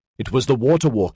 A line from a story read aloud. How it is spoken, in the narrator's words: they cried